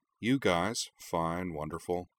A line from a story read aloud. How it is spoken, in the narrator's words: she mumbled, sinking into a reverie of concentration